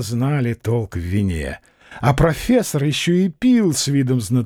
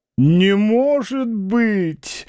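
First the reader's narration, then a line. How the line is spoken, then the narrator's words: Theatrically astonished exclamation. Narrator (Russian): воскликнул профессор с театральным изумлением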